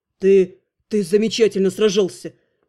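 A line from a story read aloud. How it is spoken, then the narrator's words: Forced out with difficulty. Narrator (Russian): Кое-как выдавил его величество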